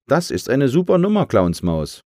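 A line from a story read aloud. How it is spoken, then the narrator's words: Called across. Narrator (German): rief sie herüber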